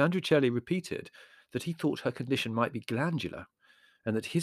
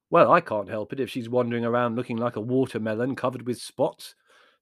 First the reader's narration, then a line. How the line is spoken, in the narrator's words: said Larry irritably